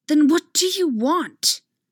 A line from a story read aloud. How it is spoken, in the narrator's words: Anakin says bitterly